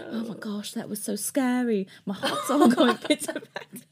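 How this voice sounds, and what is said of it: Put-on British accent. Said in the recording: “does a British accent.”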